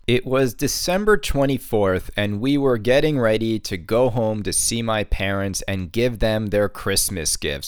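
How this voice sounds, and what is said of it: Sore, raspy, drained voice. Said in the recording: “my voice is a little sore, it's a little raspy, it's a little drained”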